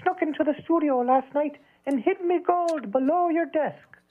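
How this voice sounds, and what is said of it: Good impression of leprechaun mascot. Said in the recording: “A really good impression of Lucky.”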